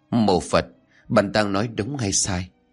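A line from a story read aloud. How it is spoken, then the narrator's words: Shaken, trembling voice. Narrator (Vietnamese): Bạn hoàng hồn kể lại bằng giọng run rẩy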